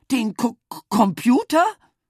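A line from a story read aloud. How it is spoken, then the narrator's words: Stammering. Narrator (German): stammelte Mama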